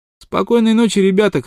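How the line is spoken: Shouted. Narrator (Russian): крикнул Смок

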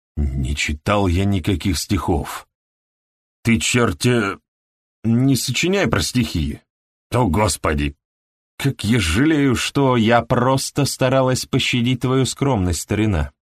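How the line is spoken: Sniffling softly. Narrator (Russian): сказала она ему, тихонько шмыгнув носом

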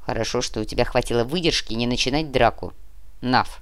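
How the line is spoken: Dwarf grumbling. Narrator (Russian): проворчал карлик

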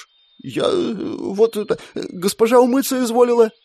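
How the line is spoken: Stammering mumble. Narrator (Russian): Запинаясь, пробормотала оруженоска

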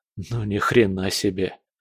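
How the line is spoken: Mutter. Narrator (Russian): Пробормотал я

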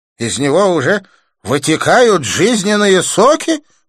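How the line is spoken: Exclaimed. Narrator (Russian): воскликнул Джасвант

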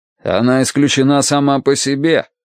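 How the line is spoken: Angry curt remark. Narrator (Russian): сердито бросил Дан Уорти

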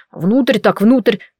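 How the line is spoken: Muttered. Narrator (Russian): пробормотал он

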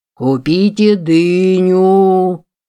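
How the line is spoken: Singsong vendor call. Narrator (Russian): Нараспев предлагал он свой товар

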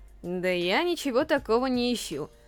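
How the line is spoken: Bored reply. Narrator (Russian): скучающим тоном ответил

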